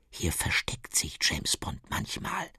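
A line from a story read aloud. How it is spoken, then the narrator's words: Whispered. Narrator (German): flüstert sie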